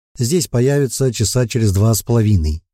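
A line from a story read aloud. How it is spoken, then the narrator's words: Plain. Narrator (Russian): ответил вампирша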